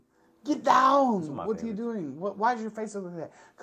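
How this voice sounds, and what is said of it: Screamed action-hero impression. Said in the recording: “Arnold Schwarzenegger ... I'm screaming”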